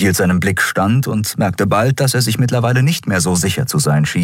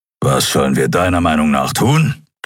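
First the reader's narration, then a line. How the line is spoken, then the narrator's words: Growled. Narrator (German): knurrte er schließlich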